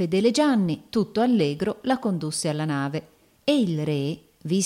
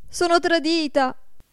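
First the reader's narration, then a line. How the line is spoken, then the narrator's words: Frightened cry. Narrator (Italian): gridò spaventata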